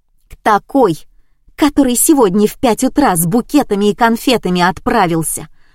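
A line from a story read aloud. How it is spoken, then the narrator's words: Shouting out. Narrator (Russian): выкрикнула я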